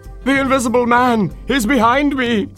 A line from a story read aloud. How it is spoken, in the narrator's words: he cried